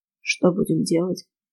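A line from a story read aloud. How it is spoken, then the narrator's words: Quiet, hoarse sleepy question. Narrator (Russian): Так же тихо спросил он, хрипловатым после сна голосом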